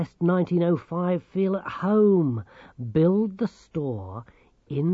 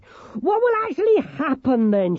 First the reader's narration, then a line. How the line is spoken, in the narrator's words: She shouted